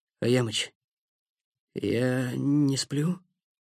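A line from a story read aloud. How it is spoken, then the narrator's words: Weak voice. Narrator (Russian): слабым голосом сказал Никита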